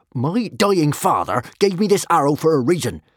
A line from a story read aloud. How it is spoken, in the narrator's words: snapped Norbert the Nutjob